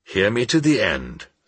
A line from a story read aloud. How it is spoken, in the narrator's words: said the professor, in a constrained voice